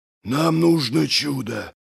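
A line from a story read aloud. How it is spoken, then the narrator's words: Breathed out. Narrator (Russian): выдохнул Доздувой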